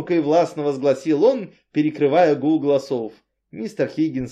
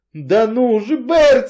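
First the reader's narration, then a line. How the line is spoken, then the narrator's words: Shrieking. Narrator (Russian): визжал Энзи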